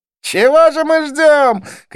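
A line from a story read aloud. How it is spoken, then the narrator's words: Shout. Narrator (Russian): крикнул Близнец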